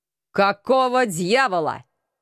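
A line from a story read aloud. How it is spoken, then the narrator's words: Menacing question. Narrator (Russian): В том же тоне грозно поинтересовался Алекс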